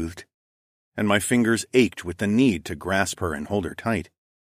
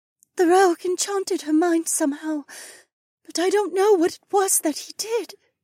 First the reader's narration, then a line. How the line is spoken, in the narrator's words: explained, the sobs in her voice